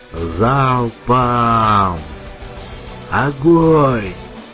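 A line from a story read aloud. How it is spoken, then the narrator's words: Bellowed command. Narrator (Russian): Заорал Меченый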